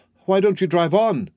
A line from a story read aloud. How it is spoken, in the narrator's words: said Miss Lantry impatiently